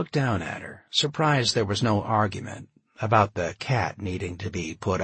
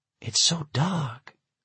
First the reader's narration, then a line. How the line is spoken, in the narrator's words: whispered